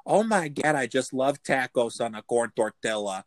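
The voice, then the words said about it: Put-on Minnesota accent. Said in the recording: “I want to work on Minnesota. ... I want to be able to talk like that all the fucking time”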